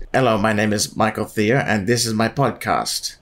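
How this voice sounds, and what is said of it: Stiff, robotic American accent attempt. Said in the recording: “in an American accent ... you sound a bit like a robot at the moment”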